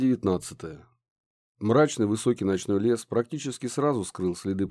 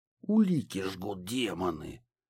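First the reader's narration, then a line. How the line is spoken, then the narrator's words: Hoarse wheeze. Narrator (Russian): прохрипел Ларс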